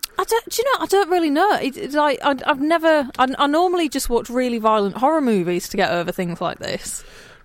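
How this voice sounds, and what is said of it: Hull accent, Northern English. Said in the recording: “is also from Hull, as you can probably recognise by that beautiful accent.”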